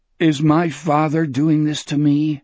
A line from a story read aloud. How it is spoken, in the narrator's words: Richard asked miserably